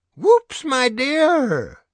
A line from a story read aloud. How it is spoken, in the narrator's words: Grandpop cries